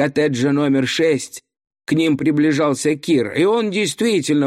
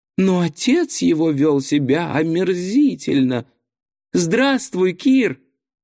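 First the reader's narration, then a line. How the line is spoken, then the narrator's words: Timid. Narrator (Russian): робко сказал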